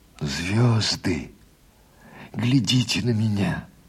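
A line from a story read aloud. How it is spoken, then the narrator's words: Whisper. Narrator (Russian): прошептал Егор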